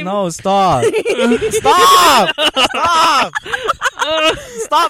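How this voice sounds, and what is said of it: Loud yelling. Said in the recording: “I'm so sorry if your ears are bursting at this point in time because we're yelling.”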